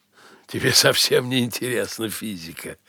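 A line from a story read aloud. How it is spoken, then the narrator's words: Sudden cheerful laughter. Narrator (Russian): вдруг весело рассмеялся Эрвин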